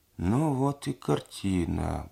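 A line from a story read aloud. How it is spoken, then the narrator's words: Muttering. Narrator (Russian): бормотал Проня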